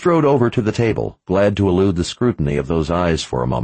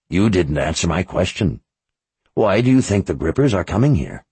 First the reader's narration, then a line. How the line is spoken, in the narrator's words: Her voice lowered into a deeper, harsher rasp, bordering on anger